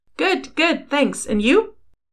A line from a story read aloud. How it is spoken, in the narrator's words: She laughed